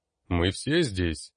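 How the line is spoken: Booming knight's voice. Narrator (Russian): прогудел другой рыцарь, Брорна

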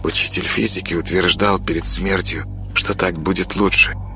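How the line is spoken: Quiet girl's voice. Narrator (Russian): тихо говорила девочка

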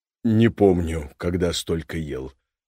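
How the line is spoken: Breathless exhale. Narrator (Russian): выдохнул Боря

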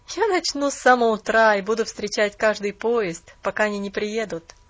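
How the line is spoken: Laughing, slightly bitter. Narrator (Russian): рассмеялся молодой человек с легкой горечью

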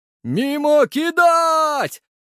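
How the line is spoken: Yelling. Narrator (Russian): заорал Мимик

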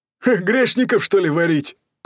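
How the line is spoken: Joking laugh. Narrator (Russian): засмеялся шутки технолог

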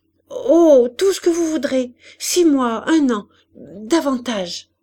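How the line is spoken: Relieved happy stammer. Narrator (French): balbutia-t-il, soulagé, heureux de ce qu'elle ne le mettait pas tout de suite à la porte

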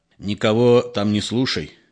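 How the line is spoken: Guilty and angry. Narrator (Russian): виновато и зло говорил сыну

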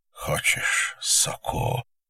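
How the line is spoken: Quiet male question. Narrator (Russian): тихо спросил мужчина

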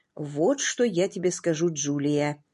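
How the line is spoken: Soft, gentle. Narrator (Russian): мягко проговорил

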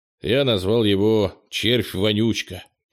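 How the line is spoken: Snorting. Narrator (Russian): Кенни хмыкнул

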